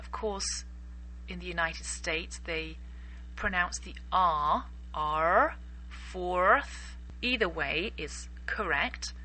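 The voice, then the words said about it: English accent. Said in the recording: “I'm English, so I pronounce it with an English accent.”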